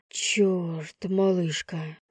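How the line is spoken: Breathless exhale. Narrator (Russian): выдохнул Лев

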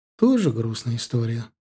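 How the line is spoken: Sighing. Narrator (Russian): вздохнула Наташа

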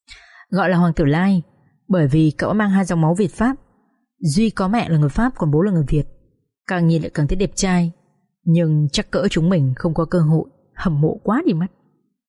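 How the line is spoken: Girls explaining. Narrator (Vietnamese): Các bạn nữ … tiếp tục giải thích

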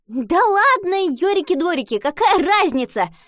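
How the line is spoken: Indignant. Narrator (Russian): возмутилась она

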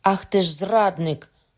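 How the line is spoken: Shouted. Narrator (Ukrainian): крикнув

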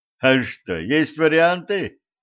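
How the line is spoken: Mocking snort. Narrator (Russian): Федя глумливо хмыкнул

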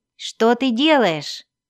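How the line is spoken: Alarmed shout. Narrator (Russian): закричал он, почуяв неладное

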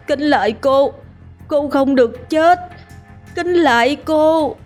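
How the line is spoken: Madman's wailing sobs. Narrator (Vietnamese): gã chỉnh điên gào khóc

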